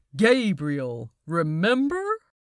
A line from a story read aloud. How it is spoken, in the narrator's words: Gabriel laughed again